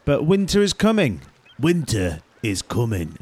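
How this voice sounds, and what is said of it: Poor Jon Snow impression, wandering accent. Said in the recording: “wasn't a very good impression. He kind of went to a different place there, accent wise”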